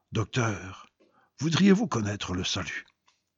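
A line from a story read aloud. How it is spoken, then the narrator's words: Gentle, soft. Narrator (French): Un plombier, sentant ma détresse, me dit doucement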